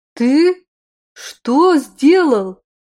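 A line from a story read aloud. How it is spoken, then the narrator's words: Exclaimed in chorus. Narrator (Russian): хором воскликнули мы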